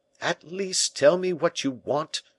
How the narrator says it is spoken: exclaimed Louis, folding his arms with a passionate gesture

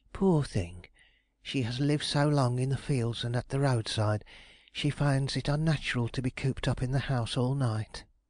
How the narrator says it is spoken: murmur to herself

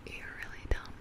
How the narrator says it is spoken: she whispered in my ear

